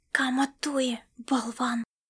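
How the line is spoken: Hiss behind friendly face. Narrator (Russian): прошипела Аэлита с приветливой миной на личике

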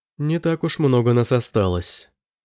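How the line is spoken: Sad. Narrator (Russian): грустно сказала Ютруда

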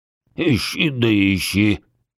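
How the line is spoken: Angry hiss. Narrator (Russian): сердито зашипел подарок

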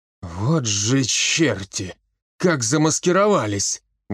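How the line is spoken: Exhaled words. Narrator (Russian): выдохнул он

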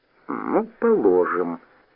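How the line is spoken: Drawling. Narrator (Russian): протянула Галя

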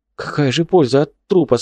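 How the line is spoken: Confused question. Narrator (Russian): спросил растерянно

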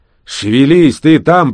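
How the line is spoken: Grumbling. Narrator (Russian): проворчал Рэмбо

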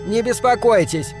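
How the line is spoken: Irritated shout. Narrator (Russian): раздраженно крикнула Сандра

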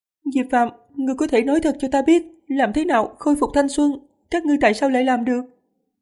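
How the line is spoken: Earnest pleading question. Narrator (Vietnamese): Lâm Dài không khóc nữa, chăm chú, gần như năn nỉ, hỏi

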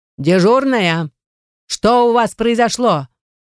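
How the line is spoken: Loud booming shout. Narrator (Russian): На весь коридор зычным голосом проорала она

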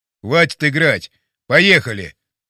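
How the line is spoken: Sharp shout. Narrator (Russian): прикрикнул Пьеро

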